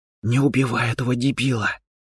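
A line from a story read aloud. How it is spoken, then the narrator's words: Whisper. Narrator (Russian): прошептала она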